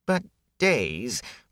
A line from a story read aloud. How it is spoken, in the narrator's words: Whit whined